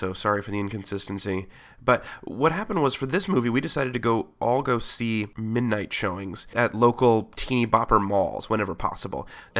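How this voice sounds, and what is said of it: Voice affected by a cold. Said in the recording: “I've got a bit of a cold”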